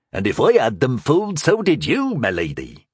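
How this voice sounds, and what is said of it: Thick rustic peasant accent. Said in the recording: “aping a thick Alshari peasant's accent”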